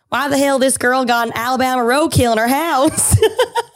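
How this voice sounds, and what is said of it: Put-on Southern American accent. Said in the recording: “I like that you gave the comment an accent. ... I do a pretty good Southern accent.”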